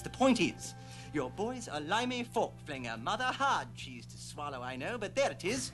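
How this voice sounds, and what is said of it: Effete put-on British accent. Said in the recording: “An effete British superhero ... I speak in a British accent”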